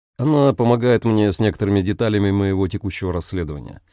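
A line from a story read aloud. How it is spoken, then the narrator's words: Calm explanation. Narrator (Russian): спокойно пояснил Дамиан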